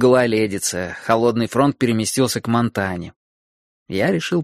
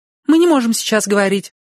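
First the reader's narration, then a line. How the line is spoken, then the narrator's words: Hurried blurt. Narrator (Russian): торопливо выпалила она, когда поняла, кто звонит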